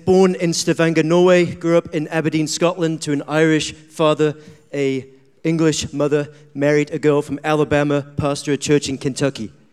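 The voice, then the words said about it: Blended mixed-origin accent. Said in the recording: “what's the blend of the accent that we're hearing right now?”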